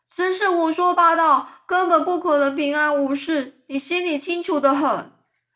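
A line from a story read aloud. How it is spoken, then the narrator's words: Nervous shout. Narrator (Chinese): 蚯蚓又开始很紧张的叫着说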